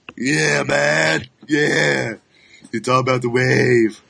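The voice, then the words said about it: Poor hippie voice imitation. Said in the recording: “my bad hippie imitation, which is not very good”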